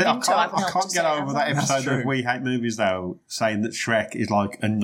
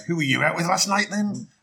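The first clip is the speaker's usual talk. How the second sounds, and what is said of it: Put-on Scottish accent. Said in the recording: “That was my Scottish accent.”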